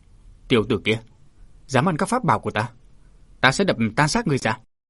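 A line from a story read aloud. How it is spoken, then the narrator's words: Resounding shout. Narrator (Vietnamese): tiếng quát vang lừng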